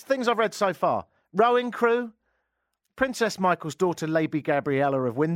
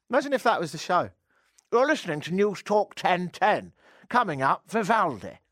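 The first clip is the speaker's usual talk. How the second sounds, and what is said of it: Posh upper-class English accent. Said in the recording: “I can do the accent sometimes if I need to. If you ever want to imitate someone that's really well to do in England, it's terribly easy. All you have to do is speak out at the very side of your mouth. Ideally, pop a couple of marshmallows in there... your tongue will be sort of transfixed in a slightly different position. You can sound jolly clever.”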